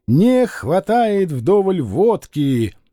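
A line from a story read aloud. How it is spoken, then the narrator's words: Loud collective sigh in unison. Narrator (Russian): артель громко и дружно, как одна большая грудь, вздыхала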